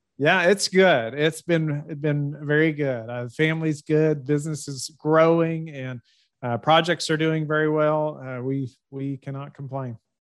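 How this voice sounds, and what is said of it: Warm Southern US accent. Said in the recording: “the Southern accent ... you talk with a warm Southern accent”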